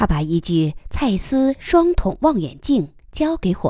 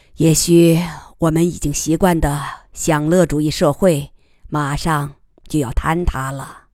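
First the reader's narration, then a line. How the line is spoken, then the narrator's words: Sighing. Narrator (Chinese): 亚历克斯叹息一声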